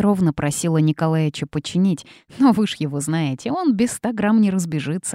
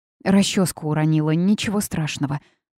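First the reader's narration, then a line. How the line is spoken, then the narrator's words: Agitated mutter. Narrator (Russian): пробормотала Рита, стараясь унять бешено бьющееся сердце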